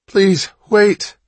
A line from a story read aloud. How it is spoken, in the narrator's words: Hatch gasped